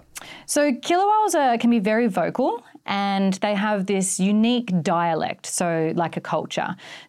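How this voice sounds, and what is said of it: Australian-accented English. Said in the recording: “if I'm speaking English in my Australian accent”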